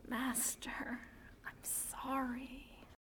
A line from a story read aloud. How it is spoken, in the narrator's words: Anakin alone and unhappy in the Force, and whispers